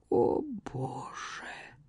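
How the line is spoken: Silent moan. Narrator (Russian): Безмолвно простонала Катриона

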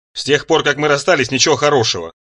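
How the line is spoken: Glum croaking. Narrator (Russian): Проквакал добрый фрипон довольно уныло

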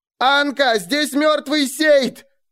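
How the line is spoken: Piercing shout. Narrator (Russian): пронзительно крикнула Кая

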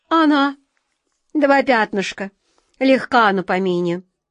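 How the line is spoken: Grumbling cat. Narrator (Russian): проворчал кот Васька

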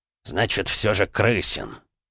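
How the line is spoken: Angry growl. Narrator (Russian): зло рыкнул Михаил Юрьевич

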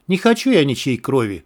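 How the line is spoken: Weary, sorrowful. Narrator (Russian): устало и скорбно сказала Марина

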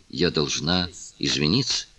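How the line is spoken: Quiet. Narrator (Russian): тихо произнесла

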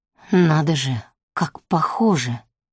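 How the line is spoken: Mutter. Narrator (Russian): пробормотал он

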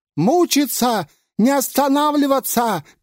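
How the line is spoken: Shouting. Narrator (Russian): кричал шайтан

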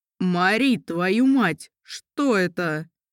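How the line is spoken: Roaring. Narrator (Russian): Взревел он

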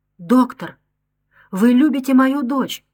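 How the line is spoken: Exclamation. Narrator (Russian): воскликнула Женевьева, инстинктивно угадывая правду

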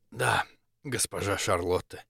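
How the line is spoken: Hoarse reply. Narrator (Russian): хрипло откликнулся Максимилиан

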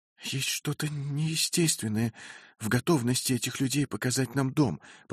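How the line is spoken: Whispered reply. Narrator (Russian): прошептала Сара в ответ

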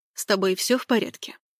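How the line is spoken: Dry question. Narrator (Russian): сухо спросил он

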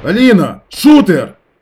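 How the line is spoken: Shouted. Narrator (Russian): крикнул я

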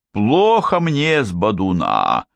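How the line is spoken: Moan. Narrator (Russian): простонал Бенни

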